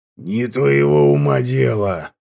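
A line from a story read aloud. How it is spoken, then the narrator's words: Through gritted teeth. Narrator (Russian): процедил Маханвер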